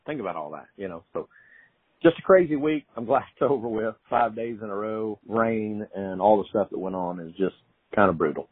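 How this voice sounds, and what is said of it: Thick Oklahoma accent. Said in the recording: “really thick Okie accents ... I've got a very thick Oklahoma accent, had my whole life”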